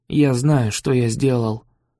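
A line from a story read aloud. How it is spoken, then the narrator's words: Quiet. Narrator (Russian): повторил я тихо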